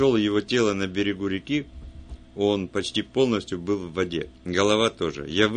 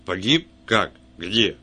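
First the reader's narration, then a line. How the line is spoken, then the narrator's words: Sharp question. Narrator (Russian): Брегин резко спросил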